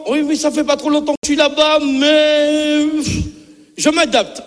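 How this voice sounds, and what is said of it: Antillean French accent. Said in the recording (French): “Mais l'accent, il est là, hein, il est là.”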